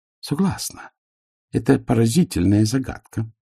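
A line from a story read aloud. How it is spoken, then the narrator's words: Calm. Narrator (Russian): спокойно сказала вампирша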